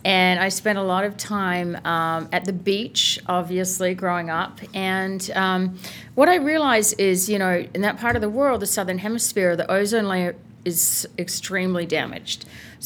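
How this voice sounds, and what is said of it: Australian accent. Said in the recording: “Where's that beautiful accent from? ... I grew up in Adelaide, Australia.”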